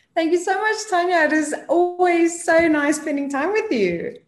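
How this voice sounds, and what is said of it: Afrikaans-accented South African English. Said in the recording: “if you hear a little accent ... I'm Afrikaans speaking, so that's where the whole accent comes from”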